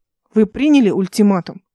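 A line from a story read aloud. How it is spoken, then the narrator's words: Irritated question. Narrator (Russian): раздраженно спросила она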